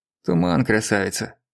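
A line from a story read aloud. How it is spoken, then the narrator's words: Grumbling. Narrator (Russian): проворчал Евсеич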